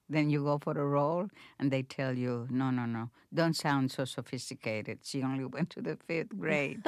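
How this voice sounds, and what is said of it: Noticeable foreign accent in English. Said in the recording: “I had a thick accent, much thicker than I have now”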